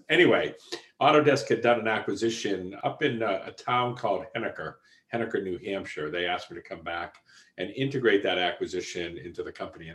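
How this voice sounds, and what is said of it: Strong Boston accent. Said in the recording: “my Boston accent comes across quite strong”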